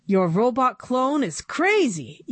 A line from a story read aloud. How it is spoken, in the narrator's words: yelled Mr